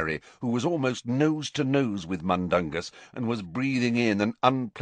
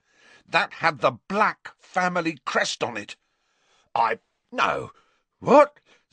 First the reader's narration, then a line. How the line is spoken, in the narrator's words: spluttered Mundungus, who was turning slowly purple